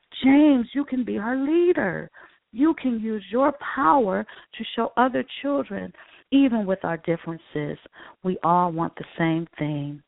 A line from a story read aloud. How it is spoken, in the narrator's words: Maya exclaimed